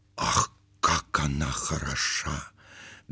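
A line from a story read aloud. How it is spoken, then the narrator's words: Whispering. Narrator (Russian): говорили шепотом кавалер кавалеру и дама даме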